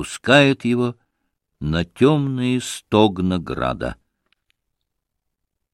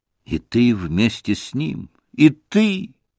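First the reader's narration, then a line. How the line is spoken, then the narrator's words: Sorrowful exclamation. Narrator (Russian): горестно воскликнул Алеша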